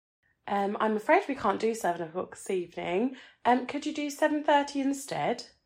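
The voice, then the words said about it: Polished professional telephone voice. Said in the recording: “your voice is so damn sexy ... You just have your professional telephone voice.”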